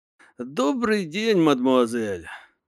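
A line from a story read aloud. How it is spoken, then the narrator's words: Resigned sigh. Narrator (Russian): сказал, обреченно вздохнув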